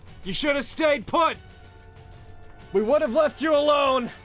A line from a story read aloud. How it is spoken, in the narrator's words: this one just yells out